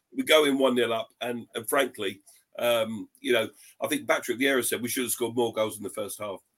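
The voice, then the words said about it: Strained voice, losing it. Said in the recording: “give my voice a rest ... because I'm losing it ... while you're choking”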